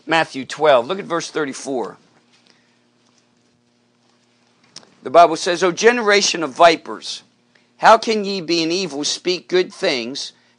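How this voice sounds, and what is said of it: Hoarse, strained voice. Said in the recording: “my voice is all messed up... I was shouting at her a bit”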